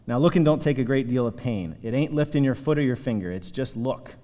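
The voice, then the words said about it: Put-on redneck preacher accent. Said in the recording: “I'm not going to use like a British kind of Cockney accent, but you could think of kind of like a redneck maybe preaching here.”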